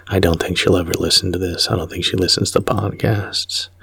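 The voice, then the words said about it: Whispering. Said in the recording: “So I don't know why I'm whispering.”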